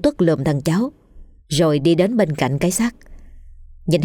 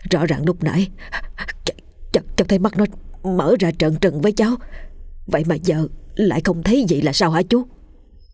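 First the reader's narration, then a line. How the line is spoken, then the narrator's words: Stammering. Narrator (Vietnamese): Nó lắp bắp nói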